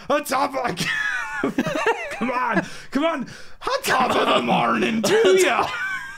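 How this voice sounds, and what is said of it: Put-on Irish accent. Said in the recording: “He wants to do his famous Irish accent... wants to do his Irish accent.”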